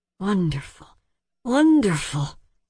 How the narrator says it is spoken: sighed Hari

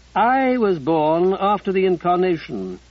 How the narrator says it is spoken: Ruddy said firmly

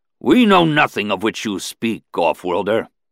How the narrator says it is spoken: he replied angrily

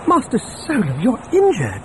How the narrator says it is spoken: C-3PO exclaimed on seeing dried blood on his hands and face

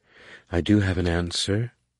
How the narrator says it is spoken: she said kindly

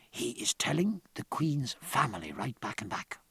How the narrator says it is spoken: Tapia whispered

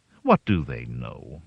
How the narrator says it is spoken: Mother asked grimly

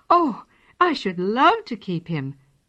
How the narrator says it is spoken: cried the children's mother

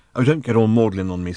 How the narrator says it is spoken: snapped Ford

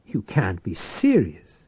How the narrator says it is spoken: he exclaimed

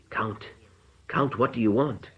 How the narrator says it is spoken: he whispered, trying to free himself

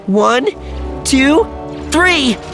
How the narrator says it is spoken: cried Alana

